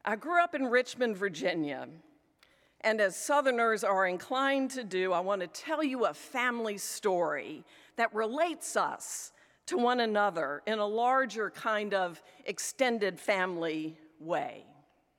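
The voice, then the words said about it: Mild Southern US accent. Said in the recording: “I don't sound like I'm from around the corner or that I grew up in the Philadelphia area ... My accent is discernibly Southern, although I argue not quite so as from South Alabama or deep in Georgia.”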